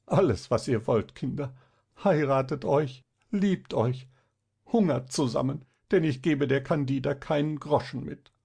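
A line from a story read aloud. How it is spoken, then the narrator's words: Sobbing. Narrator (German): sprach er schluchzend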